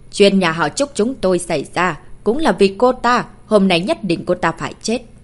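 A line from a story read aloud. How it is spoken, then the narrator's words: Cold. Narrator (Vietnamese): Trúc Vĩnh Sinh lạnh lùng nói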